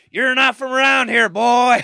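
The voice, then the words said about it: Yelled mocking redneck accent. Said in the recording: “When I do an impression of them ... start yelling ... we do sound like that”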